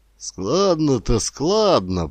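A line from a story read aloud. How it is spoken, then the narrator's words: Grumbling. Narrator (Russian): проворчал Рыбаков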